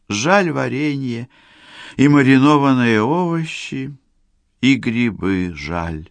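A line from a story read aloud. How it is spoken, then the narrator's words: Sighing. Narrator (Russian): вздохнула Юля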